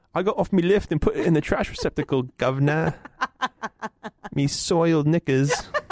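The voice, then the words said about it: Put-on Cockney British accent. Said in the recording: “It's a little British. ... And you can do your little Cockney accent.”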